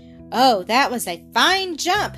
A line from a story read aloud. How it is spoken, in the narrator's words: exclaimed Blackie